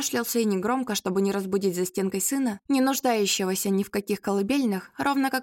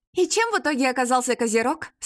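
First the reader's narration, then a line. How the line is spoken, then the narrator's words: Asked through laughter. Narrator (Russian): сквозь смех спросила Ирка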